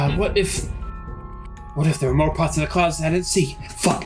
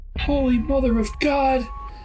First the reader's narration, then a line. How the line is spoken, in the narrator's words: I whimpered